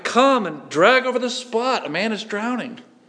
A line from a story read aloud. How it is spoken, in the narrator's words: cried as hope revived